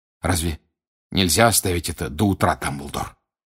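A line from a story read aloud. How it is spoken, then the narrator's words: Hoarse question. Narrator (Russian): хрипло спросил Сириус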